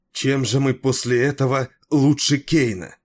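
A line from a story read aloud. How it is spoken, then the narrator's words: Exclamation. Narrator (Russian): воскликнула она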